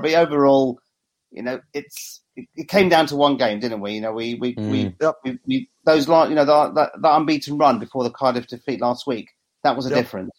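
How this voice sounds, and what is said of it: Slightly croaky voice. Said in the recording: “my voice is a little bit croaky”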